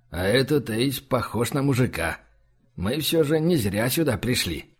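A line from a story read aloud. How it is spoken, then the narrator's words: Whisper in ear. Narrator (Russian): Либерий прошептал на ухо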